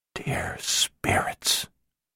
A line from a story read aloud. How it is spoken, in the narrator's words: she whispered to herself